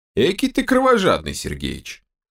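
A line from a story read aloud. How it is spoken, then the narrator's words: Snort. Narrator (Russian): хмыкнул Берс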